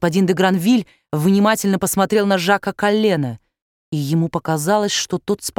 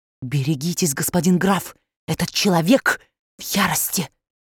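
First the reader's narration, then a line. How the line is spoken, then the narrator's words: Urgent whisper. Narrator (Russian): господин Го шепнул ему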